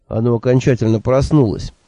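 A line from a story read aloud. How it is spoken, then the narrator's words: Sighing. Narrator (Russian): вздохнул я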